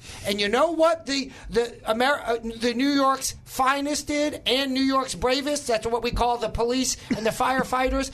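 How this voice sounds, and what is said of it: New York accent. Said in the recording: “I originally, as you may recall, as my accent might disclose, am from New York.”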